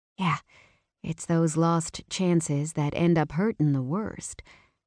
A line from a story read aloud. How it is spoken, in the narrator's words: I said quietly